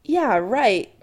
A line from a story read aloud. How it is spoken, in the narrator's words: Kim scoffs